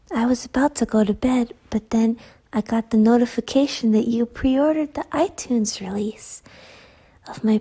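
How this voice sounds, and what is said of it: Sleepy, tired-sounding voice. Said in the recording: “Sorry, my voice is like this. It happens when I get sleepy.”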